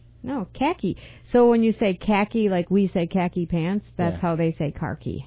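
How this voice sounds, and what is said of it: Usual voice. Nothing is said of it.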